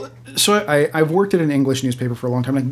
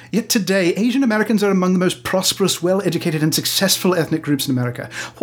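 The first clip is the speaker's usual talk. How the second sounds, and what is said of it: Put-on English accent. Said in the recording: “I can do the accent fairly well”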